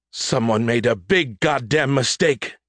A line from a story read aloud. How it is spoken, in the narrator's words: Captain Renal barked